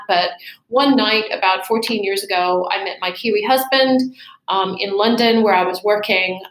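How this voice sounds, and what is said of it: American accent. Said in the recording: “as you can tell from my accent, I wasn't born in Canterbury, Christchurch, or New Zealand. I was born overseas. I'm an American by birth.”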